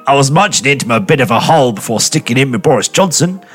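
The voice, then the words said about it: Put-on Australian accent. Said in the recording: “I'm going to do this in Australian accent”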